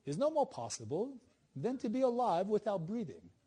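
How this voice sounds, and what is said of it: Put-on English accent. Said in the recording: “that's my English accent because he's English ... I apologize with my accent.”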